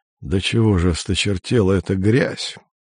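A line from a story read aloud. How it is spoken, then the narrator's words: Disgusted mutter. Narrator (Russian): пробормотал он с отвращением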